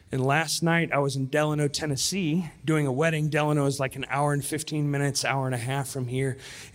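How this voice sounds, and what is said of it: Congested, allergy-affected voice. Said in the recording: “You may be able to hear it in my voice right now, but I have bad allergies.”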